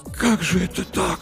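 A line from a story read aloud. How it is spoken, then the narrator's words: Whisper. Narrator (Russian): прошептал Артамонов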